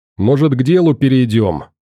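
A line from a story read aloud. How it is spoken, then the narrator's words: Sudden loud start. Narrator (Russian): вдруг громко начал Никита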